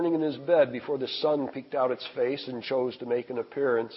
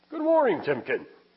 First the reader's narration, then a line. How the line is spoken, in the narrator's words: said in a jovial tone